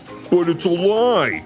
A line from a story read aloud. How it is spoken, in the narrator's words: he bellowed